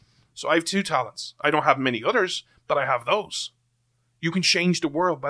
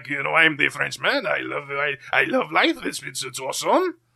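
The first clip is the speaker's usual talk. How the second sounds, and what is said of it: Put-on French accent. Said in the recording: “I can do a really good French accent.”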